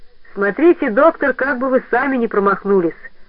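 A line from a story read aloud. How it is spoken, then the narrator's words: Cheerful. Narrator (Russian): сказал весело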